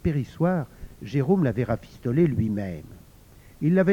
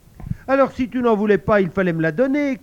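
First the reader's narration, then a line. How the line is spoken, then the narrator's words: Shouting. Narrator (French): criait Ludovic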